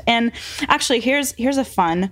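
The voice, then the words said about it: Sarcastic tone. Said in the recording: “I say that so sarcastically.”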